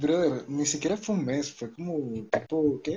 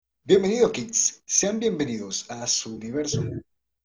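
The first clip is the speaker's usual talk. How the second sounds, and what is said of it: Radio announcer voice. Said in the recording (Spanish): “voz de locutor, hermosa”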